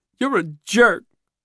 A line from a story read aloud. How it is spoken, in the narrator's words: Simone shouts through her tears